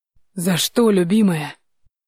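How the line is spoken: Hoarse, breaking voice. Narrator (Russian): Его голос был хриплым и ломким

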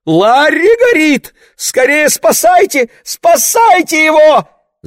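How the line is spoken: Screaming. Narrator (Russian): закричала она

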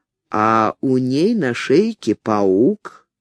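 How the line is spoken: Quiet, in Russian. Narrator (Russian): тихо произнес по-русски

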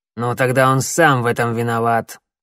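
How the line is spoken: Cold remark. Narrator (Russian): холодно заметил коготь

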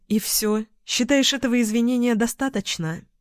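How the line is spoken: Sigh. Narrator (Russian): Финн вздохнул

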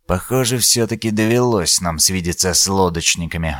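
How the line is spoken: Sighed. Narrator (Russian): вздохнул Дорникус

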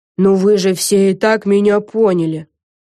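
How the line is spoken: Grumbling under breath. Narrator (Russian): проворчала Лиззи Бист себе под нос

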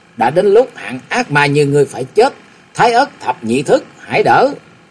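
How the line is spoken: Hissed through teeth. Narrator (Vietnamese): Chàng rít qua kẻ răng

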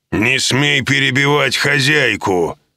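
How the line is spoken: Growling. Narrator (Russian): зарычал оборотень

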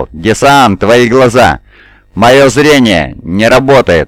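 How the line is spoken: Shouting. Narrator (Russian): он закричал

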